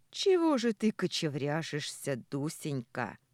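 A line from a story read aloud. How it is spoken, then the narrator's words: Angry question. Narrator (Russian): зло глядя на меня, спросил он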